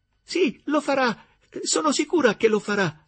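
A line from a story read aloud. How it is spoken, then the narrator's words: Enthusiastic exclamation. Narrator (Italian): esclamò Gertrude con entusiasmo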